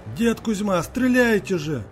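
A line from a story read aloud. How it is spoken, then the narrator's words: Confused shout. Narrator (Russian): крикнул Андрей, не понимая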